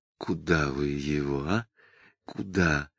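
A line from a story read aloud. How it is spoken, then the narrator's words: Whispered question. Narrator (Russian): шепотом спросил Самгин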